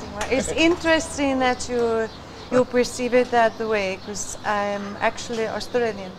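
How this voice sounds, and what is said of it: European-sounding foreign accent. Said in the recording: “European accent. ... Croatia ... foreign accent syndrome”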